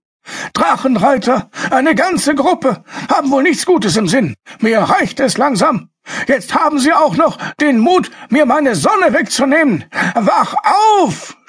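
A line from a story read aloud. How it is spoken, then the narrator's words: Shouted. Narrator (German): schrie er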